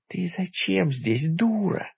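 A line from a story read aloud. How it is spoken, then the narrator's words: Hissing through teeth. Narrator (Russian): сквозь зубы прошипел я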